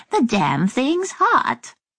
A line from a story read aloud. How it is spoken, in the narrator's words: chirping